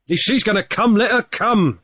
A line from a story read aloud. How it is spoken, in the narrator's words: cried